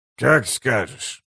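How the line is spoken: Muttering. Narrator (Russian): пробормотал Гиборик

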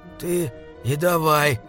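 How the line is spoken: Hoarse wheeze. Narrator (Russian): прохрипел он

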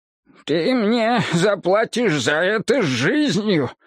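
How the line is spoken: Muffled menacing madman. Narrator (Russian): глухо пообещал кровожадный безумец

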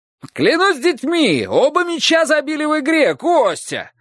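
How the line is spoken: Excited man shouting from roof. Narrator (Russian): восторженно крикнул мужчина с крыши

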